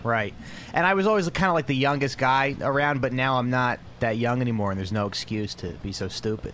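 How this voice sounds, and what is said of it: Noticeable regional accent. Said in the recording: “You have the look and voice and everything about a dum-dum ... The accent, I think, hurts.”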